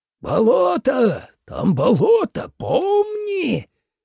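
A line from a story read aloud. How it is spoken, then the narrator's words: Sudden menacing shout, old man. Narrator (Russian): крикнул вдруг старик устрашающим голосом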